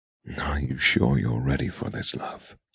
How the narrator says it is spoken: He murmurs in my hair

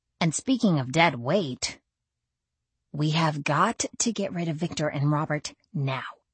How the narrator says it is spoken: I murmured to Dimitri

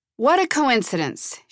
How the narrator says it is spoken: she shouted

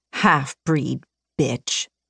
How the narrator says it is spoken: snarled

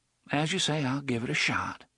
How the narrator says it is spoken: she sighed

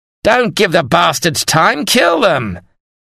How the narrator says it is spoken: Sir John Cornwall bellowed

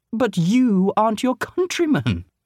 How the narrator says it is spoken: exclaimed Sterling

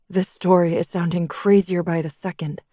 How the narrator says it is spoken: Blake muttered

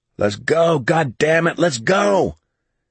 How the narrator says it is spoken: Mellis tried to shout above the roar

